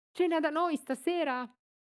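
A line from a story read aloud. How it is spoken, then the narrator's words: Woman shouting. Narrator (Italian): la moglie del fornaio grida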